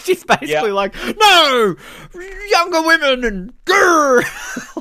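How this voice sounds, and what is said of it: Angry growling imitation of another person. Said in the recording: “my Sharon Stone impersonation”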